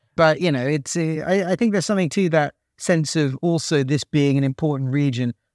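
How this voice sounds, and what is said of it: British accent. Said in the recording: “I'm a Brit, so, you know, they hear a British accent”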